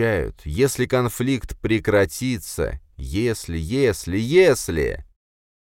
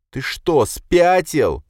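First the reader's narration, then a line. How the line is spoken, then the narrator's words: Shouting into phone. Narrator (Russian): кричала она в трубку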